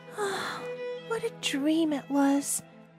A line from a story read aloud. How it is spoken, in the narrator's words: Kismin sighed